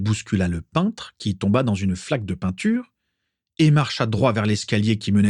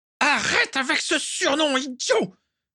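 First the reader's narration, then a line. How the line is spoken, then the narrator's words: Yelled. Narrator (French): hurla Walburga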